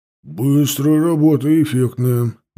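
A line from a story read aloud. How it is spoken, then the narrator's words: Deep bass voice. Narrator (Russian): басил один голос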